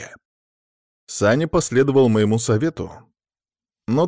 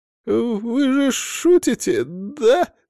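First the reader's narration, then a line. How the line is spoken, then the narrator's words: Pleading. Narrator (Russian): взмолился Саня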